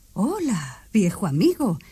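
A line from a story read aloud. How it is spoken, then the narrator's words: Soldier exclaiming. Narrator (Spanish): exclamó el soldado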